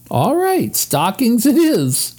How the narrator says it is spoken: agreed Jessie, trying not to laugh

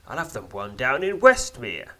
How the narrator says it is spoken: snapped Zuin

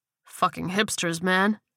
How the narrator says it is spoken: he muttered

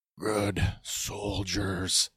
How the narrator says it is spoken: Wrecker, in an incredible amount of pain, mumbling to himself

